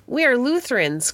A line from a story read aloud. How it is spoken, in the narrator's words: cried the French